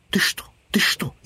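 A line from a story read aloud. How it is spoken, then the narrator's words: Squirrel's frightened whisper. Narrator (Russian): испуганно шептала белка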